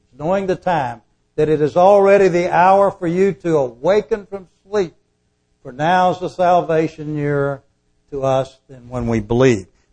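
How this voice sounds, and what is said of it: Southern American accent. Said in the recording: “a southern expression ... down in the south ... I grew up down there. You can tell by my voice.”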